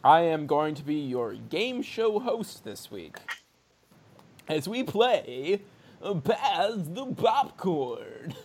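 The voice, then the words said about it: Radio DJ announcer voice. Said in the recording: “That's my radio DJ voice.”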